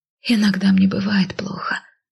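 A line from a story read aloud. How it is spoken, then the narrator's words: Quiet mutter. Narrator (Russian): тихо пробормотала я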